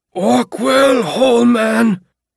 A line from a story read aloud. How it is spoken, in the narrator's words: screamed in his muffled voice